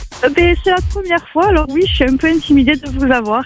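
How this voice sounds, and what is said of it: Slight southern French regional accent. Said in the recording (French): “un petit accent ... Ça vient du côté d'Albi”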